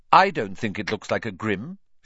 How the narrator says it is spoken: she said flatly

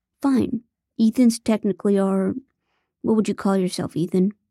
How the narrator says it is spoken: Phil asked

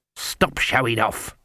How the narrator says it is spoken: Granny hissed

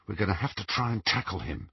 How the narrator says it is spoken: he whispered to Ron

